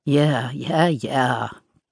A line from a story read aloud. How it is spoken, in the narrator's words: Kaya growled